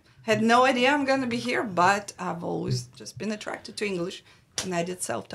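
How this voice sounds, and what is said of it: Russian accent. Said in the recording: “do you hear that accent ... I can't lose the accent ... I am originally from Russia”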